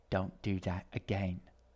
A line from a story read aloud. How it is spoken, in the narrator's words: Edgar said under his breath